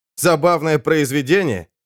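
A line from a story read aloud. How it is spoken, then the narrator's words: Snorting. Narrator (Russian): Данте фыркнул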